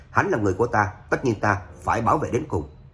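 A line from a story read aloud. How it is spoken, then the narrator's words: Cold snort, firm. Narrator (Vietnamese): Trác Phàm lạnh lùng hừ một tiếng, kiên định nói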